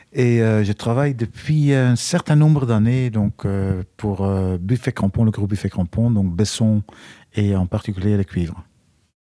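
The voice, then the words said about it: Belgian French accent. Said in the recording (French): “Je suis euh, belge d'origine pour ceux qui n'ont pas reconnu mon accent.”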